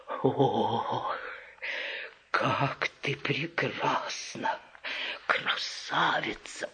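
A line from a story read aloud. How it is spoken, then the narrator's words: Whispered. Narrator (Russian): прошептал он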